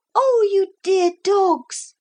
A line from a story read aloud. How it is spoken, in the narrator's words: Lucy cried